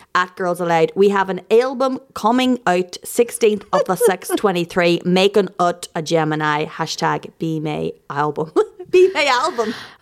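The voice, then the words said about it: Put-on accent imitating another person. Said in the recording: “I'm just going to approximate an accent”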